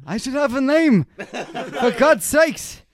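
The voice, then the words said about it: Old man voice. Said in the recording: “That's like your Jewish guy accent. ... That's a very, very, very good. That's a very good old man accent.”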